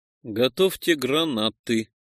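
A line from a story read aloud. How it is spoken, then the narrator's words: Quiet. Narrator (Russian): тихо сказал я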